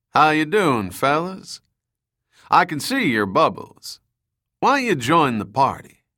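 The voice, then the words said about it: Southern drawl. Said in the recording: “A southern drawl came over the communicator.”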